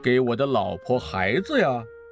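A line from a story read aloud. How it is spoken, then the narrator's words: Sly chuckle. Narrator (Chinese): 乔治鬼鬼的一笑说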